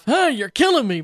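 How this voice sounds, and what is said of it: Imitated Alf character voice. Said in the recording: “my imitation of Alf”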